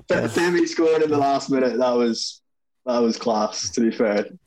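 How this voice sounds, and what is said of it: Irish accent. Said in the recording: “a true Scotsman with an Irish accent”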